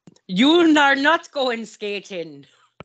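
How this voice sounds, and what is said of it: Bad put-on Scottish accent. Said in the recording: “I don't know why I sounded Scottish ... really bad Scottish accent.”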